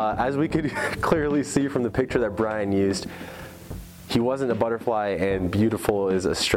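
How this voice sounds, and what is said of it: Usual voice. Nothing is said of it.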